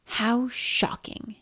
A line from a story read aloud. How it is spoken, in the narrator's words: hissed the woman from the attic